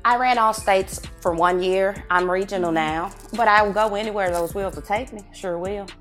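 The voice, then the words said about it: Southern US accent. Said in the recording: “You got the accent. You can hear the Texas or the southern accent in you.”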